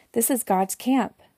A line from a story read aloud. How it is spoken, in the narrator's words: When Jacob saw them, he exclaimed